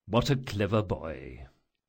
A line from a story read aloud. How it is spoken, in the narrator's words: muttered Chains